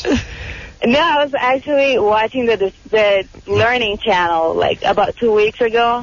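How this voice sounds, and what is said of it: Portuguese-accented English. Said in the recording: “What is that accent you have? ... I'm half Brazilian, half Uruguayan. ... Is it Portuguese? Yeah.”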